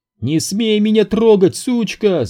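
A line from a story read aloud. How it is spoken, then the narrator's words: Screamed. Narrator (Russian): завопила она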